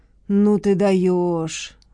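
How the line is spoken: Admiring. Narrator (Russian): восхитился маркиз

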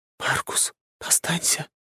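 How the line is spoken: Whispering. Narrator (Russian): прошептала Вика

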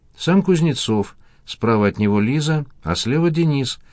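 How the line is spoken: Plain. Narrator (Russian): ответил Никольский

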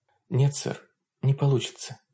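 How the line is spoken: Quiet. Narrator (Russian): тихо произнесла Хонор

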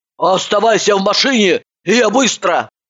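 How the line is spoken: Barked. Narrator (Russian): Рявкнула она

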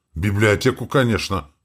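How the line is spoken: Wry snort. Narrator (Russian): хмыкнул граф

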